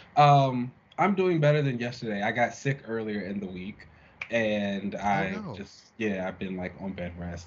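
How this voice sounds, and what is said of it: Slightly congested voice. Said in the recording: “if I sound a little congested”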